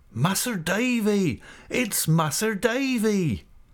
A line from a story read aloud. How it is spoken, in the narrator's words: when Ham shouted